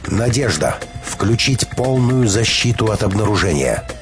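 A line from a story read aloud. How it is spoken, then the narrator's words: Stern command. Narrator (Russian): Переборов страх, Петровская взяла себя в руки и строго приказала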